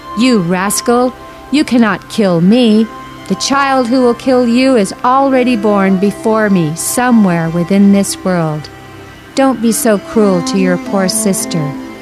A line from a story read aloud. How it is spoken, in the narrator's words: From above in the sky, the goddess Durga shouted at Kamsa